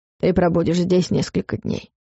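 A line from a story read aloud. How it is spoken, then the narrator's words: Dry, curt. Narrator (Russian): сухо сказал Варус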